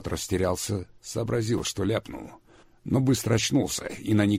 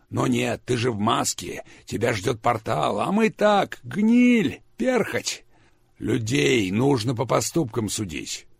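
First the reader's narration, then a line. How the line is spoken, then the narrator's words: Loud laughing. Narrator (Russian): Ник захохотал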